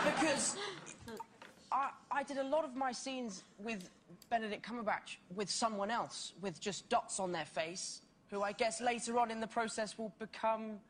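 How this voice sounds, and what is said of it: Speaks with a funny-sounding accent. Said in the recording (Chinese): “他那个口音就很逗”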